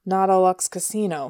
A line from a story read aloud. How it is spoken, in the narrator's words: Hilda muttered